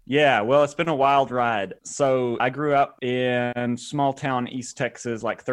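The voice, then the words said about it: Slight East Texas twang. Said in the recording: “a little bit of twang in your voice ... you are not from California ... East Texas”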